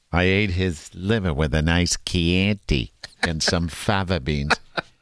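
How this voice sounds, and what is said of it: Good Hannibal Lecter impression. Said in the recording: “pretty good impression”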